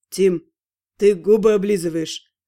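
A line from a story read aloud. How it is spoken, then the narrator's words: Amused snort. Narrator (Russian): хмыкнул Ас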